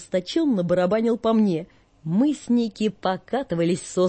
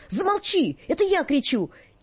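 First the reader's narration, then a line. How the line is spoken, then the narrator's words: Shouting. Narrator (Russian): Жоржик кричал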